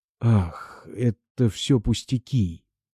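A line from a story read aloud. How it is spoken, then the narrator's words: Moaning. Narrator (Russian): простонал Бобров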